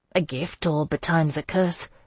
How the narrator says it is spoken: I muttered

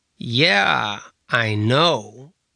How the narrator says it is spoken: Caleb said, his voice laden with sarcasm

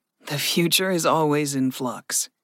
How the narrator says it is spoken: Gregory chuckled

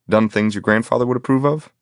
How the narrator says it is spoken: I laughed

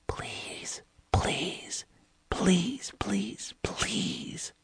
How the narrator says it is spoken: whispered softly

